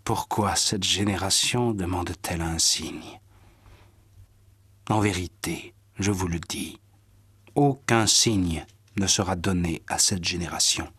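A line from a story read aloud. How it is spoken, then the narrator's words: Sighing. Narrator (French): Jésus soupira et dit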